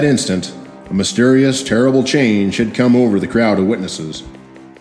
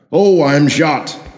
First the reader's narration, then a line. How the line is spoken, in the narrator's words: the devilish grumble of Sheriff Whitney outcry